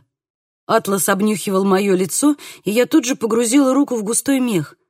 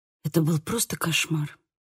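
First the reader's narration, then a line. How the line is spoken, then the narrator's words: Whisper. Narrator (Russian): прошептала я Атласу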